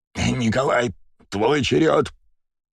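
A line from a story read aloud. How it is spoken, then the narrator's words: Hoarse rasp. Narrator (Russian): Прохрипел Ильич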